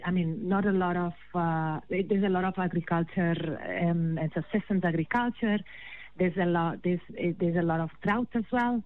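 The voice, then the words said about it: Spanish accent. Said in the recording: “my accent remains... I hail from Spain”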